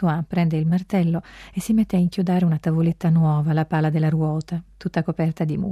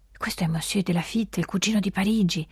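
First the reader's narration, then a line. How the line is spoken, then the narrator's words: Respectful whisper. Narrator (Italian): bisbiglia con rispetto Jeanne Abadi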